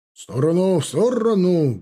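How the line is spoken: Loud bark. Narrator (Russian): гаркнул он

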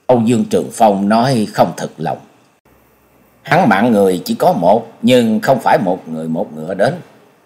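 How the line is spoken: Muttering. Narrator (Vietnamese): Nhậm Sương Bạch lẩm bẩm

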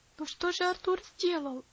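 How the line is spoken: Pleading. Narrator (Russian): взмолился Герберт

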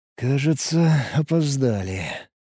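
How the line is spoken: Sigh. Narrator (Russian): вздохнул я

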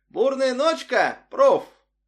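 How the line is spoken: Shouted. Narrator (Russian): Барри, студент, выкрикнул

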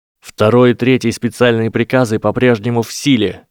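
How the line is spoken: Shouted. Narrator (Russian): крикнул Гарри

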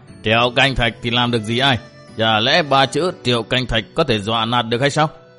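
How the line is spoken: Deafening laugh, hoarse voice. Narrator (Vietnamese): một tiếng cười đinh tai và một giọng khàn khàn cất lên

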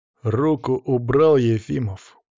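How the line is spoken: Hissed through teeth. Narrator (Russian): процедил он

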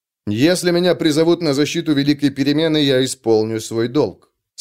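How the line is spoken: Calm. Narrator (Russian): спокойно сказал

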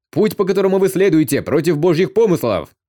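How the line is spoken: Shouting priests. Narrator (Russian): кричали священники

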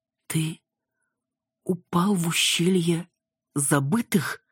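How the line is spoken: Forced out with effort. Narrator (Russian): выдавила с трудом

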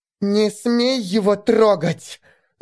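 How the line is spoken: Angry hiss. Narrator (Russian): Зло прошипела Элфи

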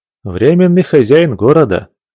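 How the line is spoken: Heavy sigh, repentant monk. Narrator (Russian): тяжко вздохнув, покаялся попутчику инок

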